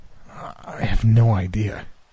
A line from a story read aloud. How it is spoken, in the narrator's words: Guy said through gritted teeth